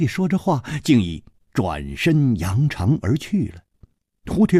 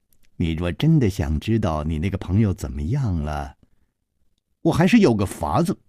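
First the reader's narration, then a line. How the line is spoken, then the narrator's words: Child, smiling. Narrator (Chinese): 那童子笑着说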